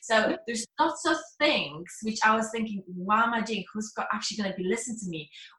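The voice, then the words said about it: Polish accent. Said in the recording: “I was worrying about my accent, if people are going to understand what I'm saying, because I'm Polish.”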